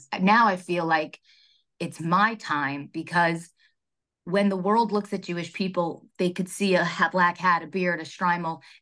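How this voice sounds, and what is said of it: Emotional, choked-up voice. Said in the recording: “I'm actually getting emotional talking about this.”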